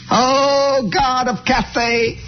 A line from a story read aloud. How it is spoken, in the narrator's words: he cried